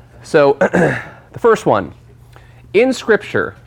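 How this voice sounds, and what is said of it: Usual voice. Nothing is said of it.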